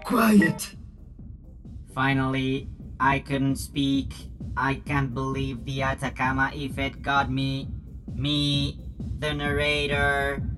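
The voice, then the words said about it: Speaks with an unfamiliar accent. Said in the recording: “Why do I have this accent?”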